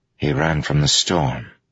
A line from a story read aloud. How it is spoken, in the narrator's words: Kaladin said softly